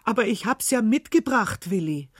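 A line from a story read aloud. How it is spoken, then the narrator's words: Calling out. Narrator (German): rief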